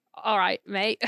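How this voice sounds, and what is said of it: Australian accent. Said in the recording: “Let's hear your Australian accent.”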